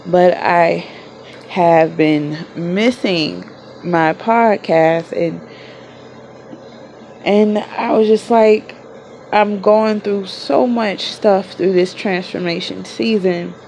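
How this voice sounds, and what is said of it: Sick, under-the-weather voice. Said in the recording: “I am a little under the weather, so please excuse my voice.”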